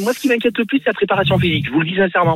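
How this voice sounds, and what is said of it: Clermont-Ferrand regional French accent. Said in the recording (French): “cet accent ... Il est du Puy de Dôme. ... C'est l'accent de Clermont.”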